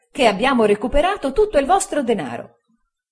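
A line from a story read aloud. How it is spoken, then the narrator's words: Joyful exclamation. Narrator (Italian): esclamò Traddles raggiante di gioia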